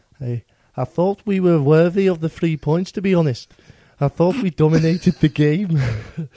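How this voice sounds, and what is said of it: Scouse accent, imitating Kevin Nolan. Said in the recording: “I'll let someone else do Kevin Nolan. ... I'm not doing it in a in a Geordie accent. ... That'd be funny because he's Scouse. ... Is it your scouse?”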